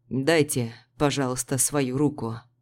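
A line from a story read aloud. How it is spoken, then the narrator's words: Hoarse voice. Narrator (Russian): хрипло произнес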